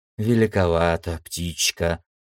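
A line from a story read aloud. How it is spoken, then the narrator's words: Muttered. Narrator (Russian): пробормотал Нисан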